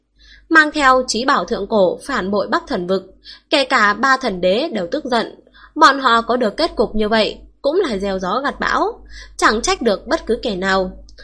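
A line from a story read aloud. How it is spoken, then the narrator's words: Old man's soft sigh. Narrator (Vietnamese): Lão giả thở dài một tiếng rất nhẹ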